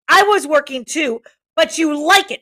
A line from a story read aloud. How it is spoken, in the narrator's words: shouted Ralph